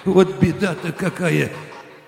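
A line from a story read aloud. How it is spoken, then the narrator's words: Cheerless giggle. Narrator (Russian): Невесело хихикнула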